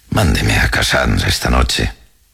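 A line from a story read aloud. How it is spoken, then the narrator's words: Consoling tone. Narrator (Spanish): dijo en un tono consolador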